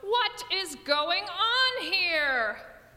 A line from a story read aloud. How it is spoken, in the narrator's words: still another voice, charged with fury, shout